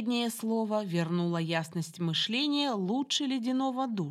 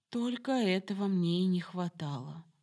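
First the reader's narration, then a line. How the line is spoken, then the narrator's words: Sad statement. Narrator (Russian): констатировала грустно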